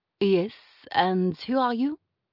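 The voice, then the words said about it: French accent. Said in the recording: “the French in her ... A discernible accent underlay these few words”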